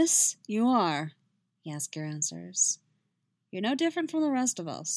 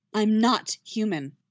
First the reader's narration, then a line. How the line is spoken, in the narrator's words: Yennefer says sharply